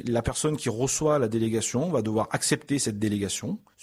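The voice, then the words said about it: Southern French Avignon accent. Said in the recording (French): “né en Avignon ... on entend l'accent aussi depuis tout à l'heure”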